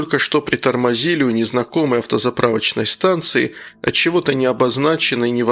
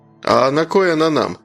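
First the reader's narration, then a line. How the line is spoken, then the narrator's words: Chuckled. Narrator (Russian): хохотнул Роман, младший соседа на десяток лет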